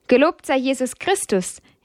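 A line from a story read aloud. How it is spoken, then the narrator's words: Familiar called greeting. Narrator (German): rief er, wie sie es alle gewohnt waren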